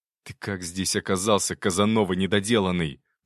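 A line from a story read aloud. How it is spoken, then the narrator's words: Hissed. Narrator (Russian): прошипел Никита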